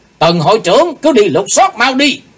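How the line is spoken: Shouted. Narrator (Vietnamese): Trong tiếng quát đó, lão đại ác ma

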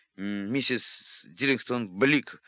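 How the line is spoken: Choked, sputtering through water. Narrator (Russian): выдавил он из себя, выплевывая слоги вместе с водой

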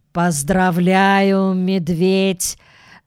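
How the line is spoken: Gloomy, after long pause. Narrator (Russian): мрачно произнес он после долгой паузы

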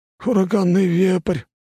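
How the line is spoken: Breathless man's exclamation. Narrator (Russian): выдохнул мужик

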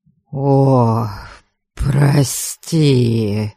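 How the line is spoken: Contrite mutter. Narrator (Russian): Покаянно пробормотала Бальд

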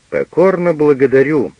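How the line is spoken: Rude, curt retort. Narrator (Russian): грубо отрезал Пагель

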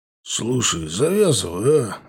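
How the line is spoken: Sighing. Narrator (Russian): вздохнул Серый

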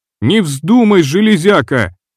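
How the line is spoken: Screaming. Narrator (Russian): завопил Диас

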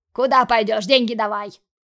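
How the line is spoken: Barked. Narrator (Russian): Рявкнул Дима

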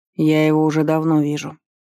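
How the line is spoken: Grumbling. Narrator (Russian): заворчал Вард

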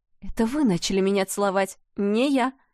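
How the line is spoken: Angry hiss. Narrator (Russian): Ее голос превратился в гневное шипение

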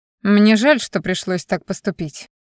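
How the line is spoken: Dry, curt. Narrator (Russian): сухо сообщил шеф

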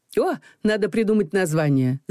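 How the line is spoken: Laughing. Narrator (Russian): засмеялась Людмила

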